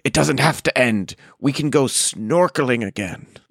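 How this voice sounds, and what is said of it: Imitates another person's voice. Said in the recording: “that was a solid impression ... Was it good? It was bad. It was bad.”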